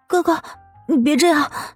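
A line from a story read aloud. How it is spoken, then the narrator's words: Quiet sobbing. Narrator (Chinese): 黄天雪…低声的抽泣着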